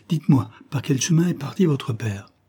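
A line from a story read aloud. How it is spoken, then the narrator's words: Exclaimed. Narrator (French): s'écria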